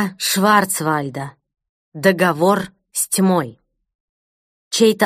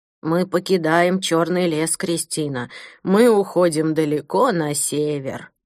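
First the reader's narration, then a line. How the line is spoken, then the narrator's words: Creaky old man. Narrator (Russian): проскрипел старик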